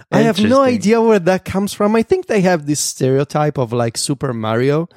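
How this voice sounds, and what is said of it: Italian-accented English. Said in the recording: “I'm Italian ... oh, I had no idea that's what your voice sounded like ... with an Italian accent”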